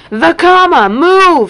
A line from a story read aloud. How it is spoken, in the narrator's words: he shouted